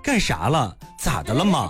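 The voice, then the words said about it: Mandarin with a put-on Shanxi accent. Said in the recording (Chinese): “我就学会了这个山普，就是山西普通话 ... 这属于是太原方言 ... 就是有点那个山西的味儿的那种普通话 ... 太普”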